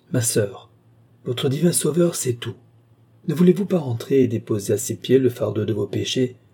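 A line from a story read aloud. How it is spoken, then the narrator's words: Unctuous question. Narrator (French): demanda-t-il d'un ton onctueux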